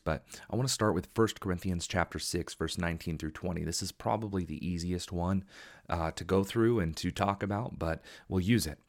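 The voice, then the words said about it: Slightly hoarse, fast-paced speech. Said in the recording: “that's why I am talking a little fast ... my voice is a little hoarse just from the long day ... I'm talking a little fast”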